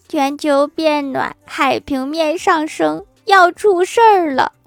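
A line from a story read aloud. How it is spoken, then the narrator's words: Weeping. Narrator (Chinese): 北极熊哭泣着说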